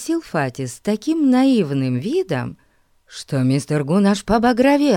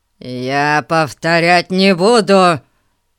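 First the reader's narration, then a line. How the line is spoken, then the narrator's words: Growled with rising anger. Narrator (Russian): зарычал мистер Гун, вскипая все больше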